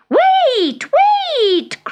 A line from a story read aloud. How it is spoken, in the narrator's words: cried the witch